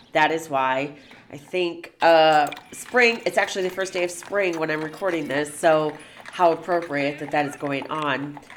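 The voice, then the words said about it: Congested, nasal voice. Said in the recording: “I unfortunately have a little bit of a sinus infection, so if I sound congested,”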